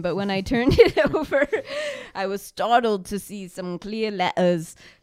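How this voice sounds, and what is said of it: Put-on unidentified accent. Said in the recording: “I don't know what this accent is.”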